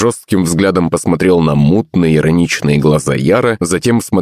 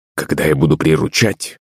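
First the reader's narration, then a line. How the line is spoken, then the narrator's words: Quiet. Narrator (Russian): тихо продолжил я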